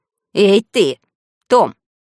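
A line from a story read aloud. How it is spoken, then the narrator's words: Menacing aunt. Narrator (Russian): тетя Поля … говорит грозно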